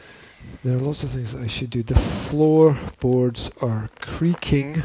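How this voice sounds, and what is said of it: Usual voice. Nothing is said of it.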